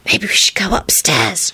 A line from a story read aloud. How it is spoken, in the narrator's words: she whispered